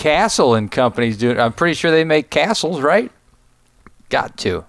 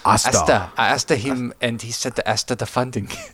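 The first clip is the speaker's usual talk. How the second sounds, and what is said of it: Put-on stereotyped East Asian accent. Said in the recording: “Can you do the accent again? ... that was definitely Oriental.”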